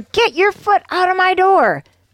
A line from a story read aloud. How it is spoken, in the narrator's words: the woman shouted